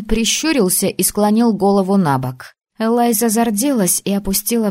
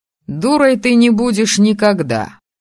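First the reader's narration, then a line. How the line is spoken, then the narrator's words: Snort. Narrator (Russian): хмыкнул Айн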